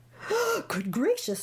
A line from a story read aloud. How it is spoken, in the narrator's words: gasped Maisie